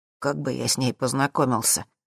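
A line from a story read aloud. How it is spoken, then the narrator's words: Honest bass voice. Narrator (Russian): ответил Зак своим честным басом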